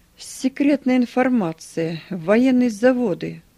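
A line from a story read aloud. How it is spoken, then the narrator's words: Loud. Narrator (Russian): громко сказал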